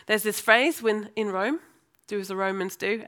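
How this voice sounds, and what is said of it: English accent, formerly American. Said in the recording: “hence the accent I have now ... lose my Americanness and learn how to interact like the English ... talk like the Brummies do. I'm now in London, so it's changed again”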